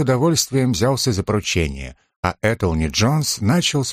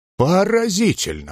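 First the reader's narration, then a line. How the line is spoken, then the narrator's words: Exclamation. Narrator (Russian): воскликнул Джонс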